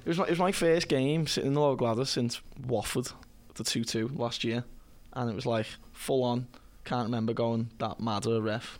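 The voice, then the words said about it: Hoarse, strained lost voice. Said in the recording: “I've lost my voice from the lower Gladys last night. ... Just screeching at Martin Atkinson.”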